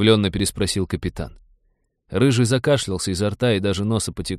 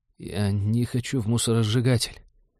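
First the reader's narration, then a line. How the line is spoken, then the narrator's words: Quiet clear whisper. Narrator (Russian): тихо, но внятно прошептал Дэн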